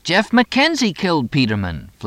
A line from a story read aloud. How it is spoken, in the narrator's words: Fletch exclaimed